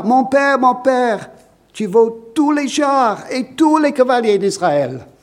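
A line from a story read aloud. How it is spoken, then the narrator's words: Crying out in tears. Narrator (French): Il se mit à pleurer et s'écria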